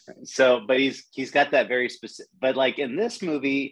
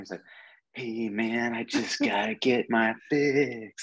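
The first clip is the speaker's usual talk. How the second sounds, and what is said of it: Imitates another person's voice. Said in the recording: “Christian Slater has a very kind of Jack Nicholson-esque way of speaking ... to do a Slater impression”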